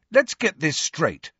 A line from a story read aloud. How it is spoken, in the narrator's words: said Harry angrily